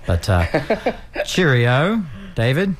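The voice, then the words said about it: Bad put-on English accent. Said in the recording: “I hear English, and I want to do the accent, and it's terrible”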